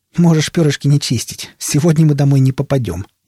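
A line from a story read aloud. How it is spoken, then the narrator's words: Snide. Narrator (Russian): ехидно заметил собеседник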